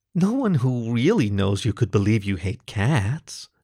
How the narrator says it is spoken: purred, deep in her throat

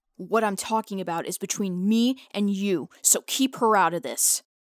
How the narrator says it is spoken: Hugh says angrily, his voice rising

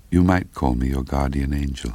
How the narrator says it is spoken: After a second or two of silence between us, she gently added

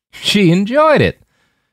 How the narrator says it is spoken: Jim said with a harsh bark of a laugh

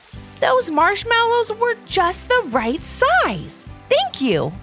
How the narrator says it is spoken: exclaimed Alice to the gingerbread men

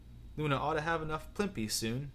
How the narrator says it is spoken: he said quietly

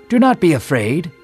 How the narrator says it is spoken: Gabriel exclaimed

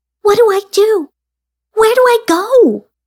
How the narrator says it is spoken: with pleading eyes and asked

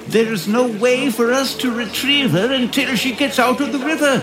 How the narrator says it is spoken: yelled

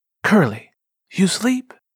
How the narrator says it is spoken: she whispered

